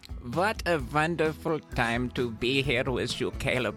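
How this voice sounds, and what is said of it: Put-on German accent. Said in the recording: “I will be introducing listeners to my German accent throughout the night”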